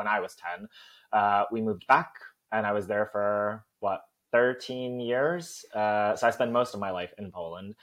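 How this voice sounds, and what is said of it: Soft North American accent with twangs. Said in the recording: “it sounds American, but it sounds more Canadian because it's very soft. And then I have these twangs now because of being here for some time ... where's that accent from? ... are you Irish? ... Are you Canadian?”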